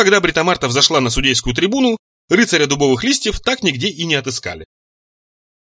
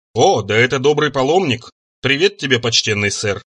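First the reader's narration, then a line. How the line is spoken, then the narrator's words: Flat colorless voice. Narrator (Russian): произнесла она совершенно бесцветным голосом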